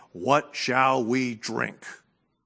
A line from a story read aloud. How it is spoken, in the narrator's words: the people grumbled against Moses, saying